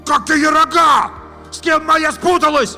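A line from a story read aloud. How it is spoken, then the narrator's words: Shouting after them. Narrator (Russian): опомнившись, кричал им вслед Витя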